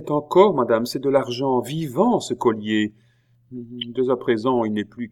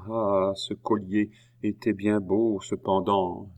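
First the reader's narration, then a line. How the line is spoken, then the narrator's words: Murmured. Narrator (French): murmura-t-elle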